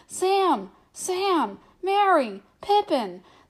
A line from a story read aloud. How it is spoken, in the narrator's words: Fear took him, shouting wildly